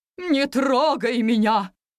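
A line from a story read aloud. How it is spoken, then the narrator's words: Vase barking sharply. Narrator (Russian): рявкнула ваза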